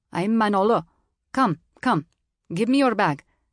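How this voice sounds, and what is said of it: Thick foreign accent. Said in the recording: “he said in a thick accent.”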